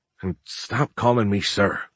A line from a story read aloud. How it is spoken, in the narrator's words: Giles sighed